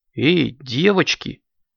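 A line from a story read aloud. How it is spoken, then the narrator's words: Hesitant interjection. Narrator (Russian): неуверенно вмешалась Аленка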